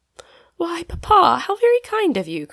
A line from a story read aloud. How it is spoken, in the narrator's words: cried, who had not dared to receive even a geranium leaf since the late scrape